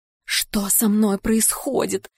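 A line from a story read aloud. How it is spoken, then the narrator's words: Whisper fading into creaking. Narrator (Russian): Шепот растворяется в скрипе веток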